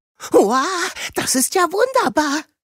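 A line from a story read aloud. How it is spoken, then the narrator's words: Excited call. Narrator (German): rief Zahnpirat Paul aufgeregt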